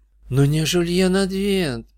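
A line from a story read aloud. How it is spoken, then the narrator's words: Groaning. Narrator (Russian): простонала Джессика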